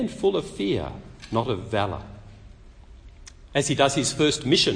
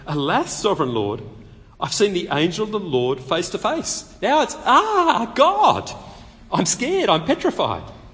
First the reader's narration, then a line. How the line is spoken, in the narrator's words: when Gideon realised that it was an angel of the Lord, it really was God, he exclaimed